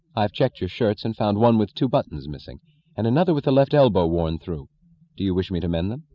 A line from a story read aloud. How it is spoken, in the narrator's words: said dryly, efficiently, in deliberate denial